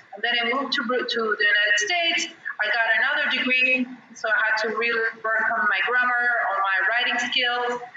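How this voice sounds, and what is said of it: Mixed non-native English accent. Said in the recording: “I still have an accent. It's a mix of everything... your accent is fine. It's like really, really nice to hear it”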